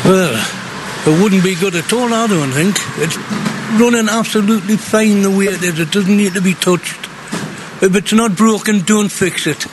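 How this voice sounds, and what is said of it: North East English accent. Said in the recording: “your accent. You're originally from Gateshead.”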